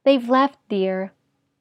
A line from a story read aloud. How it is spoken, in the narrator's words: His mother rushed to them, saying in a level voice